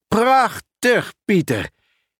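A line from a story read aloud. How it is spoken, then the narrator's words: Exclaiming. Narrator (Dutch): riep hij uit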